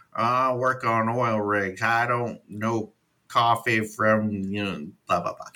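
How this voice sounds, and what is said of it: Bad redneck Matt Damon impression. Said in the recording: “redneck Matt Damon ... doing a really horrible imitation”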